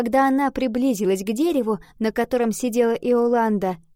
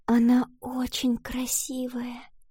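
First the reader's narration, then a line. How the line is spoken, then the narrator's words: Reverent whisper. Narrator (Russian): с благоговением прошептала Валентина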